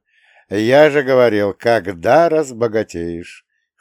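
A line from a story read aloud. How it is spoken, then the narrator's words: Chuckling request. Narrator (Russian): хохотнул я и попросил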